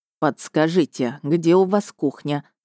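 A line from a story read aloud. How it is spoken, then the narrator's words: Plain question. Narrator (Russian): спросил синеглазый мэр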